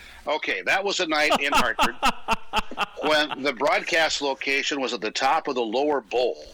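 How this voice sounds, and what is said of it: Usual voice. Nothing is said of it.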